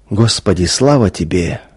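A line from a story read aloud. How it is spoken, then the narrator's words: Quiet murmuring. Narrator (Russian): тихо приговаривал он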